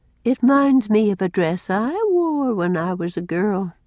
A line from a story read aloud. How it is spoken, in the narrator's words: sighed Cousin Sophia